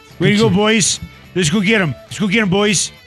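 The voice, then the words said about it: Put-on Canadian accent. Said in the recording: “Is that your Canadian accent?”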